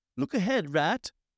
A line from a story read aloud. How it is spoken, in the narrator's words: cried the mole suddenly